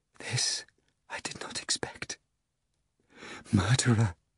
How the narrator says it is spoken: Seeing the master lying on the floor, she shuddered and whispered

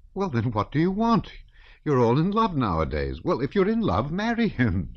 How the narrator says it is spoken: said the countess with a laugh of annoyance

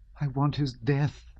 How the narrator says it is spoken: she cried, with a feeling of loathing for herself

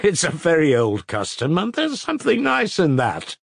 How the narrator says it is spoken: laughed Alyosha

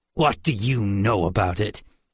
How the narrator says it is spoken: Georg sneered

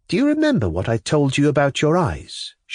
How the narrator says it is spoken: She added playfully

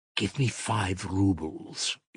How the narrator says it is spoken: he whispered to Mitya

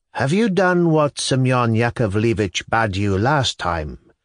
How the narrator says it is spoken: he asked the widow in a soft and measured voice

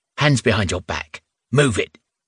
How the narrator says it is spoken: the woman snapped

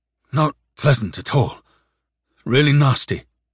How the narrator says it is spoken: Alexei said uneasily

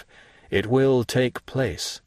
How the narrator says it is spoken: said Monte Cristo, in a most solemn tone

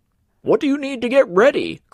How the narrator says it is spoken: cried Mr

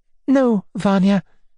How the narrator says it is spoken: added, smiling sadly

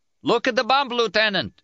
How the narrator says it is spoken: shouted

